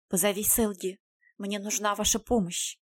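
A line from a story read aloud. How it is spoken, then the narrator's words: Quiet. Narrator (Russian): Райден тихо сказал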